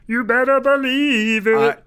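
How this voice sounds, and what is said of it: Imitates another person's voice. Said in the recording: “my Chip Zdarsky impression,”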